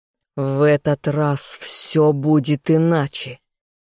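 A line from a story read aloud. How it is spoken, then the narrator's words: Growling. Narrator (Russian): зарычал я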